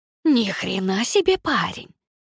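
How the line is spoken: Hissing. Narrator (Russian): шипела Никс

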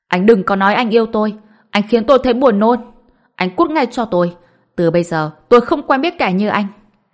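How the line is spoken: Disgusted loud shout. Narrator (Vietnamese): Lý Dài Dào trên mặt ngập tràn sự chán ghét, hét to

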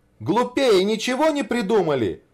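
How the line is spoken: Exclaiming. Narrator (Russian): воскликнул Рябинкин

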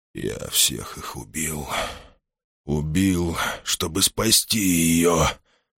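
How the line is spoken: Anguished moan. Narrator (Russian): простонал Тубрук

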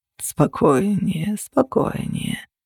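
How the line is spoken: Purred. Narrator (Russian): промурлыкал он

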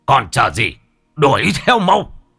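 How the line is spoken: Shouted. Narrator (Vietnamese): Ông Bá Hùm quát lên

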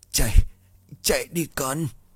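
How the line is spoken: Weak old woman's voice. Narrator (Vietnamese): Bà nói bằng giọng yếu ớt

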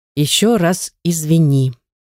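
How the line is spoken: Calm. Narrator (Russian): произношу спокойно

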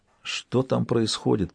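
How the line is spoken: Whisper. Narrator (Russian): прошептал Оливье

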